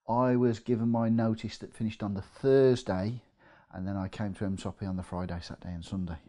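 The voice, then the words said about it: Midlands English accent. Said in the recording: “You can probably tell from my accent, I'm from the Midlands”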